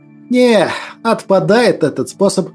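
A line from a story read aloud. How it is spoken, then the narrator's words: Resigned sigh. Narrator (Russian): обреченно вздохнул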